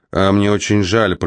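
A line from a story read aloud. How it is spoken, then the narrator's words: Harsh, insincere. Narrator (Russian): произнес Стеббенс таким резким тоном, что стало ясно, ни о каком сожалении не было и речи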